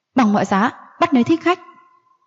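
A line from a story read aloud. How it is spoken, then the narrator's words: Stern shout. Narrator (Vietnamese): Mộc Dương Hậu nghiêm nghị quát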